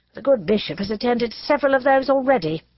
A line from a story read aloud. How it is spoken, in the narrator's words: said Elizabeth dryly